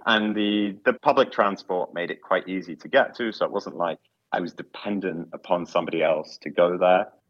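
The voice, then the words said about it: London English accent. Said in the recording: “I live in London. I can probably tell from my accent”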